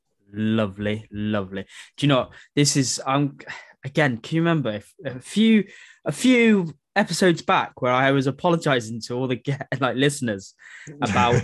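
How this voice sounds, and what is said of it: Croaky, congested voice. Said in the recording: “my hay fever has been playing up terribly, and my voice is a little bit croaky. My nose is running ... if I sound a bit awful”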